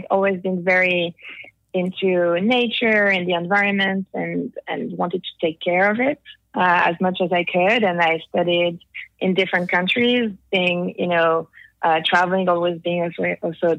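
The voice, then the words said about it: Slight French accent. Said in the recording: “just a tad bit of an accent ... As you can hear, I'm French.”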